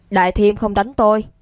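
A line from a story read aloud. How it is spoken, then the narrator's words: Stern reminder. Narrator (Vietnamese): Lương Đông nghiêm giọng nhắc nhở Khương Chí Phong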